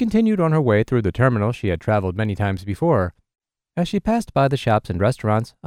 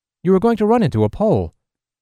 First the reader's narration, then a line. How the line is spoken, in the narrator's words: The man answered in a stressed tone